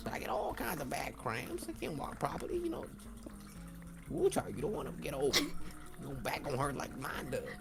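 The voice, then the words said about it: Impression of an elderly woman's voice. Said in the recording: “do the voice like that ... a really good impression of a black woman, an elderly black woman”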